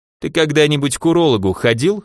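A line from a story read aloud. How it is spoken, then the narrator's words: Caretaker chuckling. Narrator (Russian): хохотнул смотритель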